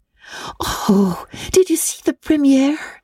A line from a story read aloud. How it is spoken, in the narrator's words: exclaimed Anne at once